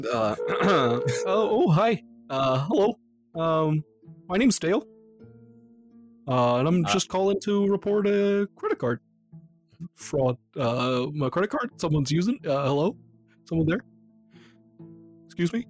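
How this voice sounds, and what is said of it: Put-on Canadian accent. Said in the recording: “Canadian accent”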